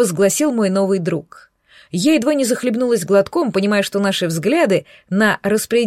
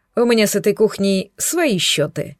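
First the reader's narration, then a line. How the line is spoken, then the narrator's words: Snort. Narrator (Russian): хмыкнул он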